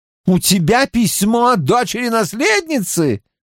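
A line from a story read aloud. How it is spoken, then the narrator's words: Exclamation. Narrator (Russian): воскликнул Гил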